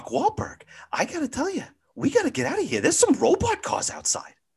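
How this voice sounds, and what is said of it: Imitates another person's voice. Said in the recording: “might be the best at impersonations in the entire world. He nails it every single time.”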